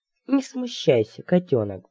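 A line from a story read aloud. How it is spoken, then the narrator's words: Cooing. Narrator (Russian): проворковал он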